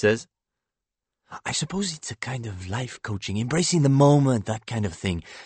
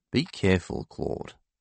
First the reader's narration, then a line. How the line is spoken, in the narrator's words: she says gloomily